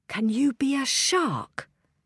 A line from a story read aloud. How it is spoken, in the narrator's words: Daisy whispered to Ella